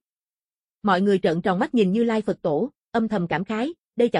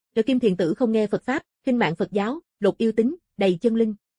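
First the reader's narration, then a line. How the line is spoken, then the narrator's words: Cold anger. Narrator (Vietnamese): Như Lai Phật Tổ trên mặt lại hóa thành giận dữ, lạnh lùng nói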